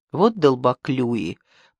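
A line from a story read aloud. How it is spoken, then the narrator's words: Displeased mutter. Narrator (Russian): пробормотал Линд недовольно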